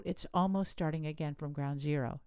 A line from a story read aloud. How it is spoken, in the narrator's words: she said